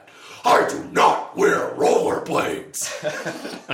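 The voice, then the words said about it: Imitates a TV character's voice. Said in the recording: “Here's my impression of my impression of Worf ... Here's Worf responding to that”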